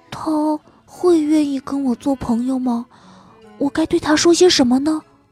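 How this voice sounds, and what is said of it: Quiet nervous mumbling. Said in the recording (Chinese): “他小声嘟囔道”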